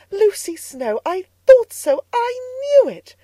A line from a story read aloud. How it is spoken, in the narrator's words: cried Mrs